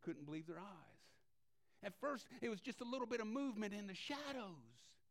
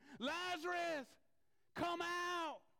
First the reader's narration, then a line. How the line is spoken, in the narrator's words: Jesus yelling to the tomb